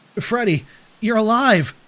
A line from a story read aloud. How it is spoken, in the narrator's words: I cried